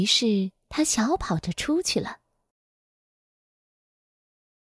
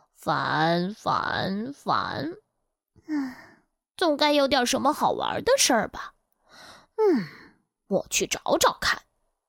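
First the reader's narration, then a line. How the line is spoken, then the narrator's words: Muttering. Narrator (Chinese): 他嘟囔着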